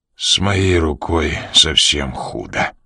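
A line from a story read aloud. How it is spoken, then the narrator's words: Forced through teeth, in pain. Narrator (Russian): выдавил Ян сквозь зубы, когда тело вдруг захлестнуло волной огненной боли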